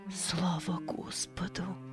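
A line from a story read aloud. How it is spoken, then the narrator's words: Whisper, mother. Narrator (Russian): прошептала мать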